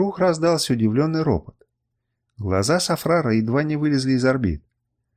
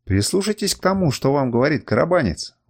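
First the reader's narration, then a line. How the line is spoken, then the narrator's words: Exclaiming. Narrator (Russian): воскликнул Сафрар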